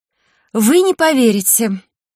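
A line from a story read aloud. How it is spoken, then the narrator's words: Emotional exclamation. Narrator (Russian): эмоционально воскликнула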